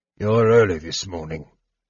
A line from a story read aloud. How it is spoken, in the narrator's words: a draconian growled